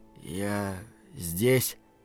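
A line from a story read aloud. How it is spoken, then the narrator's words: Quiet. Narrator (Russian): тихо произнес Рики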